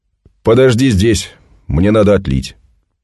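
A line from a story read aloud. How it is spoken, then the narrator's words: Loud, soldier. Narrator (Russian): Солдат громко сказал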